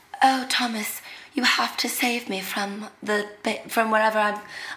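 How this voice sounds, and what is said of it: Deliberately bad fake British accent. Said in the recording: “She's a very fake British accent ... it's just the worst fake British accent anyone's ever heard.”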